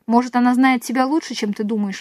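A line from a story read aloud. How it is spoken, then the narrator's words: Plain. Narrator (Russian): ответил он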